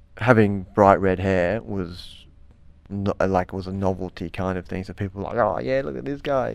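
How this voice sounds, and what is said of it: Strong ocker Australian accent. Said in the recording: “you speak in a very, you know, ochre accent ... having a strong Australian accent”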